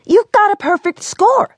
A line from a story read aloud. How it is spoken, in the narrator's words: Amquil jubilantly shouted